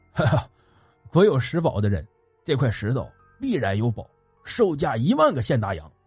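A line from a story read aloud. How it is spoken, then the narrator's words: Laughing. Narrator (Chinese): 那山民笑道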